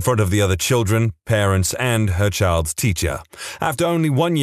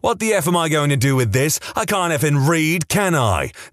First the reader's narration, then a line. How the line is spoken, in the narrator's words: shouting